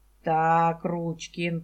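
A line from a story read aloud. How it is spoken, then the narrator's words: Metallic voice. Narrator (Russian): произнесла она металлическим голосом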